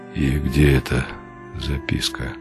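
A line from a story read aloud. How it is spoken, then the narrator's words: Dull, muffled question. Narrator (Russian): глухо спросил он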